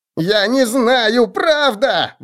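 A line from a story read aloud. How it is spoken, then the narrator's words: Shrill squeal. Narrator (Russian): взвизгнул большой втык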